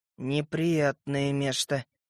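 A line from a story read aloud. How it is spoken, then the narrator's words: Quiet grumble. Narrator (Russian): тихо буркнул я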